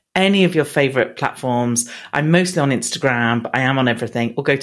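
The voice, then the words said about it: Proper English accent. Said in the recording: “your proper English accent”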